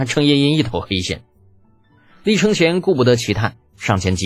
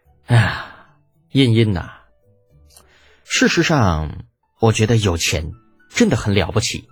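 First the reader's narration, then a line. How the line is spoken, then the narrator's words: Long sigh. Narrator (Chinese): 李浩悠悠的叹了口气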